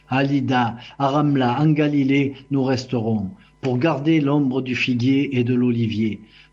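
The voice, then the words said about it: Marseille French accent. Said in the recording (French): “cet accent marseillais”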